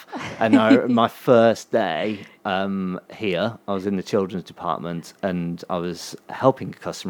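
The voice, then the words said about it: Birmingham English accent. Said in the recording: “I still get mocked for having a Birmingham accent.”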